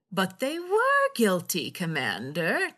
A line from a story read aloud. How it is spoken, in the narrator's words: Dukat said, his voice oozing with affable sincerity